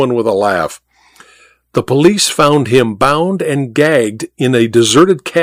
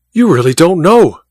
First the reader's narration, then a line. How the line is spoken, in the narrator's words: cried Goodell, his eyes blazing